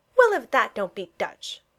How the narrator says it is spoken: Freddy said indignantly

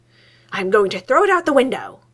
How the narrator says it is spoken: he snarls

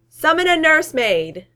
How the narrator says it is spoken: Thor yells, hurting everyone's ears

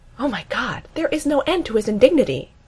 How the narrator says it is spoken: Amy gasps

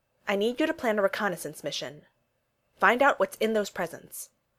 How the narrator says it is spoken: Steve said firmly

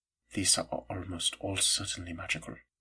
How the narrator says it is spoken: he murmured

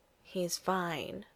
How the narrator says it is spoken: Sienna murmurs

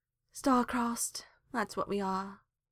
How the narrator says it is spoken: sighed Hawk

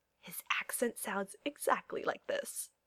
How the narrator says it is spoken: John whispers into Alexander's ear

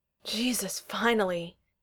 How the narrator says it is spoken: he groans

